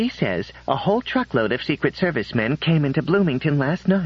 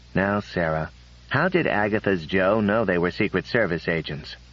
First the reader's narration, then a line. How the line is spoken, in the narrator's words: He asked calmly